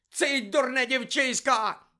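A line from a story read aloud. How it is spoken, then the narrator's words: Sudden crazed shout. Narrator (Ukrainian): закричав раптом Снейп, мов божевільний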